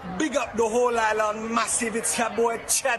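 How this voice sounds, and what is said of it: Put-on Jamaican accent. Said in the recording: “that's not Nigerian ... Love the accent ... your Jamaican accent ... he was just doing a Jamaican accent”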